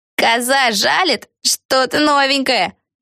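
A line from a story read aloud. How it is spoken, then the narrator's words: Witch shrieking. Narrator (Russian): завопила какая-то ведьма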